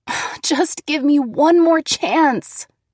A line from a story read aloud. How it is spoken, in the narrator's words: I begged